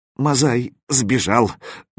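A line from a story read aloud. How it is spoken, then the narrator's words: Hesitant forced words. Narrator (Russian): выдавил заточка, не решаясь войти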